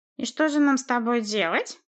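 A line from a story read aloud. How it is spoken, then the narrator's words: Through gritted teeth. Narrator (Russian): процедил босс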